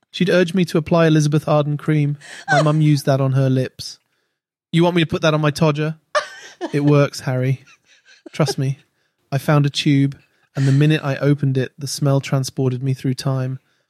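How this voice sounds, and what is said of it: Put-on British accent. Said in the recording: “sounds like you actually read that and, and put on a British put on accent.”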